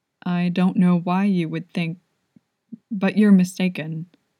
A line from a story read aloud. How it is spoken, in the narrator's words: swallowed before he quietly said